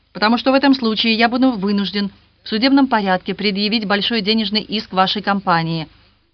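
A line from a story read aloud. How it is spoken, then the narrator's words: Sharp reply. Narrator (Russian): резко ответил Роберт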